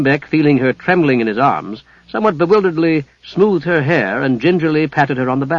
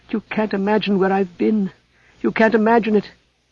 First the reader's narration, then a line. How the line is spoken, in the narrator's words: she said in a fierce whisper